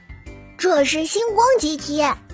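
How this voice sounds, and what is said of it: Babyish, childlike voice. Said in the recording (Chinese): “一个奶声奶气的声音说”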